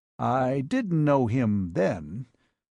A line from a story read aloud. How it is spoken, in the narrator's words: said her father slowly